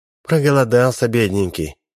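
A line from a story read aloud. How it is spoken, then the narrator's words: Sighing. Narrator (Russian): вздохнула Ольга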